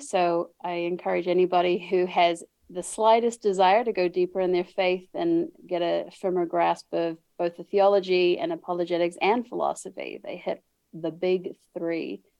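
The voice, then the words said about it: New Zealand accent. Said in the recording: “You're going to pick up an accent. ... I was born and raised in New Zealand ... I talk funny”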